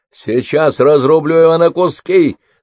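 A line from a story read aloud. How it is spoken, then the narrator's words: Screamed. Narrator (Russian): завопил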